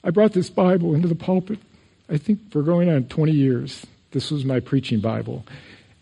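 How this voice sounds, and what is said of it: Emotional, choked-up speaking voice. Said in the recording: “I don't know why I'm getting emotional.”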